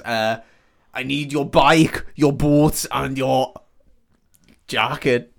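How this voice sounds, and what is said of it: Imitates another person's accent, poorly. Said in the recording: “should I do the accent? Because I don't think I can do the accent. ... I'm so bad at accents. ... It's Arnold Schwarzenegger ... You want to be like Coolio there?”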